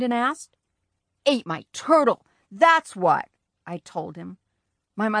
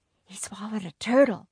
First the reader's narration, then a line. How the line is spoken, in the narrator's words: my mother whispered